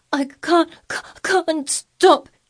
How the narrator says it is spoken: gasped

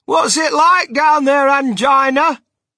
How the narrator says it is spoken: He called out

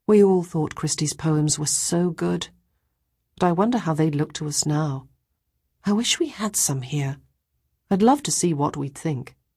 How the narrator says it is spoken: she let out a long sigh and said

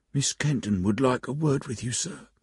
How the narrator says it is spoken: whispered

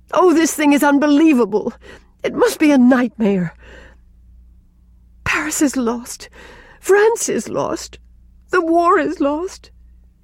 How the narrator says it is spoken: gasped Rilla, amid the utter ruins of hope and confidence and belief

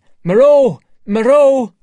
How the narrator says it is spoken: Montgomery shouting

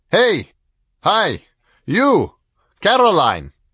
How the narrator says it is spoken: he shouted over the railing

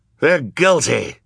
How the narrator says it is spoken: cried the man with a beard but no hair

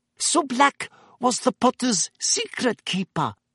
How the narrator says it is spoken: whispered Madame Rosmerta

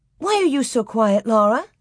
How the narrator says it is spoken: she asked without stopping, and went on with a giggle

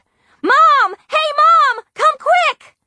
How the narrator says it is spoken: really hollered

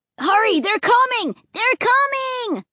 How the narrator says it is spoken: Luke and Clay were screaming in unison

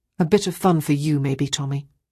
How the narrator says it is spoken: Ruth said coldly

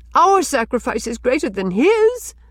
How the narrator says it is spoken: cried Rilla passionately

